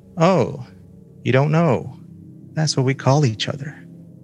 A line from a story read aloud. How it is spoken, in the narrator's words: Her seatmate sighed and said